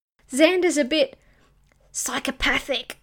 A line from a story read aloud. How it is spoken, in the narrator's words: rasped the captain